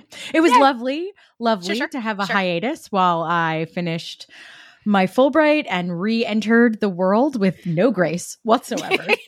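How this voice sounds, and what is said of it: New Jersey accent. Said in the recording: “the accent is back. The accent is back ... my New Jersey just fully came back”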